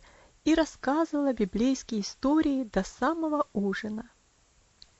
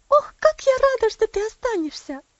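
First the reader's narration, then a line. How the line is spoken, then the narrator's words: Joyful exclamation. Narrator (Russian): радостно воскликнула Софи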